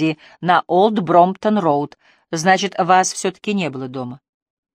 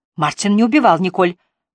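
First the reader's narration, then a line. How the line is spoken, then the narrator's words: Exclamation. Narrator (Russian): воскликнула Триция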